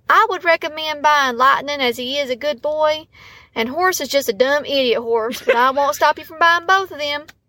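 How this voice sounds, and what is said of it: Thick, pretty Southern accent. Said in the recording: “she can turn on the thick Southern accent there ... she's got one of them like pretty Southern accents”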